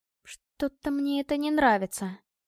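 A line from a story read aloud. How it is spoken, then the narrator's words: Faint nervous whisper. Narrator (Russian): чуть слышно прошептала, нервно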